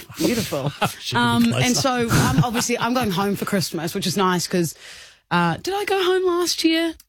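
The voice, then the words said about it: New Zealand accent. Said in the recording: “I'm from New Zealand, Kilda, if you didn't tell by the accent”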